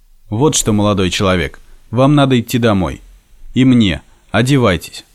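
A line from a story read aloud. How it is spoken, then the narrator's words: Firm stern command. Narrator (Russian): решительно и строго приказал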